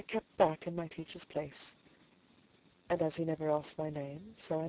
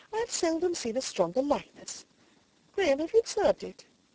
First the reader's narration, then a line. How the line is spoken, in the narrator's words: she exclaimed presently